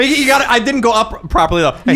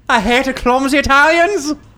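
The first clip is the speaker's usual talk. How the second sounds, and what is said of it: Put-on Irish accent. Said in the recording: “I can't do an Irish accent whilst saying the word Italian. ... You do it. ... That was good. ... You didn't go up.”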